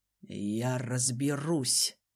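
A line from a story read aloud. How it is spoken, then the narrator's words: Grumble hiding confusion. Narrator (Russian): Буркнул Рензот, не показывая, что сам растерялся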